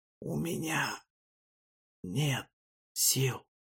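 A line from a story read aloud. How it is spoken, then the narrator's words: Whispered. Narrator (Russian): прошептал Файлан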